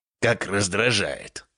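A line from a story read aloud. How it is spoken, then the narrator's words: Muttered. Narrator (Russian): пробормотал он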